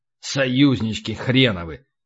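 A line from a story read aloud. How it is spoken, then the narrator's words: Grumbled. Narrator (Russian): пробурчал полубой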